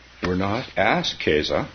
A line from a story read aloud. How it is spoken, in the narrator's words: she said sadly